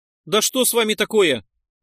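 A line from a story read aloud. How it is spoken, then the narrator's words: Exclaiming. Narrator (Russian): воскликнул Нойс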